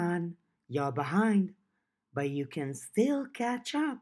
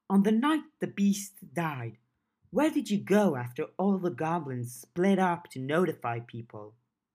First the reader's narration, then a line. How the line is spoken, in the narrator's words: Gash groaned